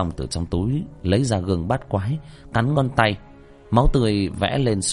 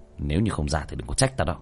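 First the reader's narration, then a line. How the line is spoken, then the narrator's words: Cold. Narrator (Vietnamese): Tiểu Thất lạnh lùng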